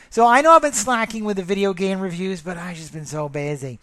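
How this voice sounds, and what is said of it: Worn-out, nearly gone voice. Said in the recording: “my voice is almost done”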